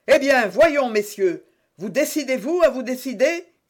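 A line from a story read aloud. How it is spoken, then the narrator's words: Impatient repeated shout. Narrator (French): cria pour la troisième fois Jussac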